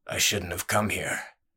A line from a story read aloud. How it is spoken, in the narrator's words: the stranger rasped